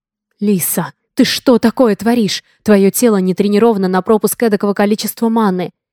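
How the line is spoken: Restrained growl near shouting. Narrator (Russian): Едва сдерживаясь, чтобы не сорваться на крик, рычал он

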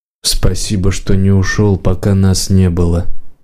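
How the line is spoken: Quiet. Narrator (Russian): тихо сказал хозяин

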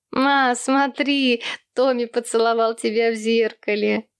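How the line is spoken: Children laughing teasingly. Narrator (Russian): Засмеялись над братишкой остальные дети

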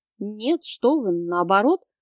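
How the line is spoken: Flustered babbling. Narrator (Russian): Пролепетала сбивчиво

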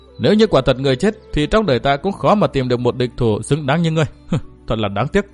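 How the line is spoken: Sad, sighing reply. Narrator (Vietnamese): Thượng quan Uyển Thanh thở dài buồn rầu đáp

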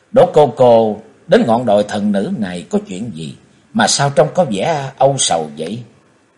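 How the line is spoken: Sorrowful sigh. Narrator (Vietnamese): nét u buồn vô tả, nàng thở dài ảo não

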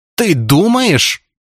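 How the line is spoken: Loud wail. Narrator (Russian): завопила Зубкова

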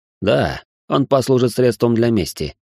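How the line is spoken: Snorted. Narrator (Russian): хмыкнул

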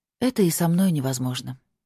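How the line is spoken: Heavy sigh. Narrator (Russian): тяжело вздохнула я

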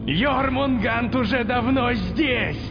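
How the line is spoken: Shouted. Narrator (Russian): прокричал Локи

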